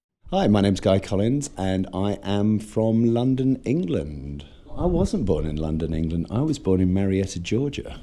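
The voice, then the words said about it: English accent. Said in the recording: “You have an English. You have an accent”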